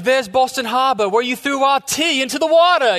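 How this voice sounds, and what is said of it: Imitated British accent. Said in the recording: “with a British accent”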